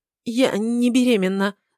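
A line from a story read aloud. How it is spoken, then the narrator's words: Stammering. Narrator (Russian): заикается Кара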